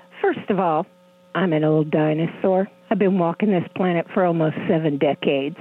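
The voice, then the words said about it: Youthful-sounding voice. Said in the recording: “you sound like a teenager.”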